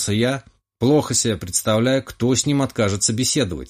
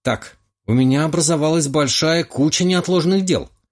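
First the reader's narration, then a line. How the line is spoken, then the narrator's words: Exclamation. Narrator (Russian): воскликнул младший Романов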